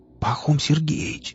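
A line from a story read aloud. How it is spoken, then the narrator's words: Whispered. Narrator (Russian): прошептал Рамир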